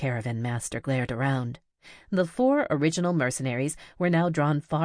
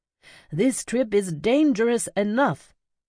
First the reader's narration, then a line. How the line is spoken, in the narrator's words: bellowed Kyakuken